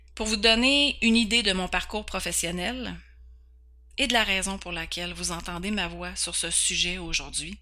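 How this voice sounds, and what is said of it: Québécois French accent. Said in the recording (French): “ce petit accent vient d'une belle province qui s'appelle le Québec, dans le Canada ... mon petit accent”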